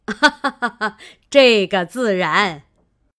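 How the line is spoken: Old woman laughing. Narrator (Chinese): 贾母笑道

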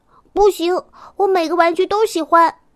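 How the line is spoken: Loud protest. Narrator (Chinese): 赛赛却大声的抗议

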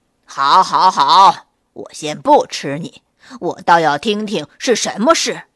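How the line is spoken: Loud. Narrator (Chinese): 小灰兔大声地说

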